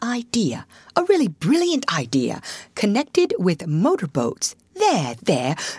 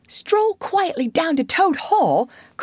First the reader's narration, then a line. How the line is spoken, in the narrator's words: cried the rat, greatly excited